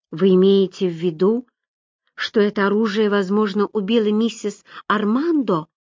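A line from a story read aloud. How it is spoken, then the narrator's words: Quiet question. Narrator (Russian): тихо спросила Роберта Уэст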